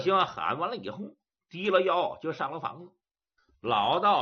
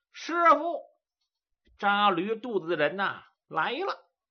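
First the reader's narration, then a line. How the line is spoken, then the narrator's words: Loud shout. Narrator (Chinese): 杜林大声喊道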